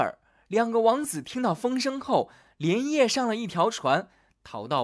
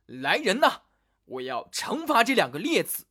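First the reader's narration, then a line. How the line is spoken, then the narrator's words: Old king, furious. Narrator (Chinese): 老国王听后龙颜大怒，说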